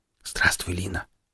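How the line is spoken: Whispering. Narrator (Russian): прошептал Сол

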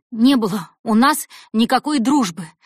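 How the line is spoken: Strained exhale through clenched teeth. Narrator (Russian): выдохнула она сквозь сжатые зубы, продолжая толкать стол

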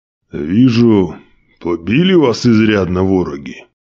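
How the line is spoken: Displeased voice. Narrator (Russian): недовольным голосом произнес боярин

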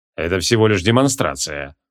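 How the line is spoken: Cold announcement. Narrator (Russian): холодно объявил креол

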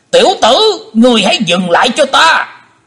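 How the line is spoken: Panicked loud shout. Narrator (Vietnamese): Hải Âu Quái Khách vô cùng hốt hoảng, quát lớn

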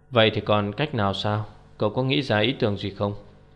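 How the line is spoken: Plain. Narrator (Vietnamese): Phạm Ninh hỏi

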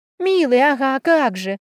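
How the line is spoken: Short laugh. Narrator (Russian): хохотнула я

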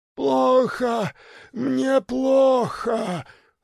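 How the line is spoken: Moaning. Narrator (Russian): стонал в кабинете Чумаков

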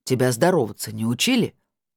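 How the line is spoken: Condescending lecturing question. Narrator (Russian): менторским тоном спросил Владимир

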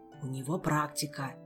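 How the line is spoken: Whispered explanation. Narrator (Russian): также шепотом пояснил охранник

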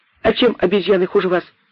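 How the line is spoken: Monkey's shout. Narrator (Russian): крикнула мартышка

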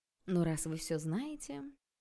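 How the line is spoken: Dry. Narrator (Russian): сказала я сухо

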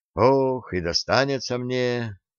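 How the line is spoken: Sighing. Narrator (Russian): вздохнул

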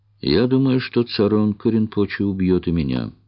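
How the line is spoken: Forced calm. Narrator (Russian): ответила Чиндамани настолько спокойно, насколько могла

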